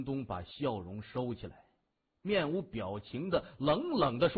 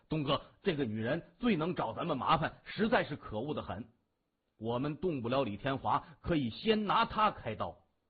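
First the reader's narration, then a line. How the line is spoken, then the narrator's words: Angry voice. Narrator (Chinese): 北红门的一名小头目…怒声说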